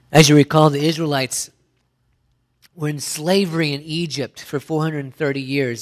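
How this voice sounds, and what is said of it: Hoarse, croaky voice. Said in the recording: “I've got a bit of a frog in my throat this morning.”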